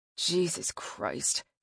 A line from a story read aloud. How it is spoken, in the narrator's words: he muttered